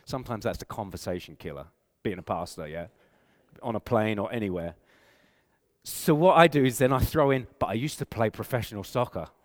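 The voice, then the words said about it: English accent. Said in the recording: “I have an English accent, and so people know I'm from England, unless they mistake me for being Australian”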